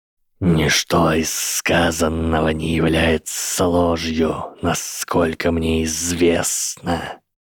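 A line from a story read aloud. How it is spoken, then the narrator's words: Hissed. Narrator (Russian): прошипел профессор Квирл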